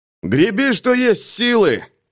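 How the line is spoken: Shout. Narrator (Russian): крикнул Пейнтер Дэнни

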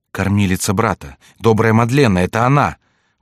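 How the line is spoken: Sudden realization exclamation. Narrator (Russian): воскликнула Маргарита, озаренная внезапной мыслью

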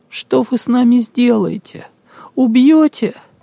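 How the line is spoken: Trembling voice. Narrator (Russian): дрожащим голосом спросила Алина

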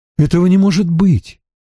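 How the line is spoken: Bewildered. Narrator (Russian): растерянно проговорил Стрэндж

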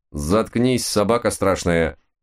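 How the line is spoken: Two voices barking in unison. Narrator (Russian): в один голос дружно рявкнули мы с Мартой

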